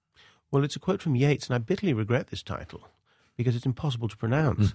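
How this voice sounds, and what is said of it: Speaker's own non-local accent. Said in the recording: “particularly if you've got my accent in this country”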